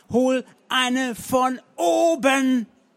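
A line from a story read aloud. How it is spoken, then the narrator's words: Shouting. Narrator (German): schrien seine Herrin an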